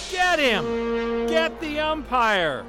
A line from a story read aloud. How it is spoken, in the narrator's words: shouted someone on the stand